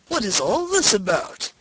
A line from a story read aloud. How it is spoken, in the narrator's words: exclaimed he